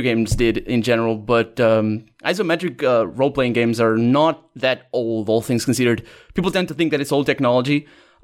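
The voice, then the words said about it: Portuguese accent in English. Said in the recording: “you're Portuguese ... you have an accent, and it's definitely not ... American”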